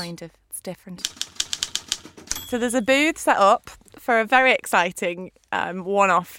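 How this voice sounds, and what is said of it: Usual voice. Nothing is said of it.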